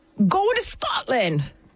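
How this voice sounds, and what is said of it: Poor attempt at Scottish accent. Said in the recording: “Is that a Scottish accent? ... I don't know what that was. ... I told her to work on it over the weekend. ... And there was no progress made”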